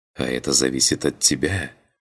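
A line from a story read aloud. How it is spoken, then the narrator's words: Whispered. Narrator (Russian): прошептала она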